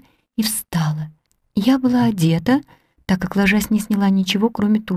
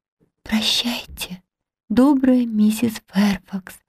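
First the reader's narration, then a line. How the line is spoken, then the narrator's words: Whisper. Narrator (Russian): прошептала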